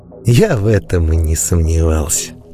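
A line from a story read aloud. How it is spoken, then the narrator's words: Old man, warm smiling. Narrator (Russian): ласково улыбнулся мне старик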